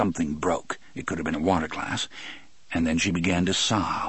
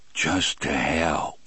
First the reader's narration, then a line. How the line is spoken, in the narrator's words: John Coffey said, in a voice so low it was hardly more than a whisper